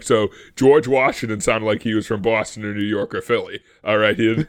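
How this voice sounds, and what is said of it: Non-rhotic towny East Coast accent. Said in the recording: “the way I'm talking is the way the colonists talked ... this, like, towny accent ... Non-arrhythmic R is sometimes what it's called”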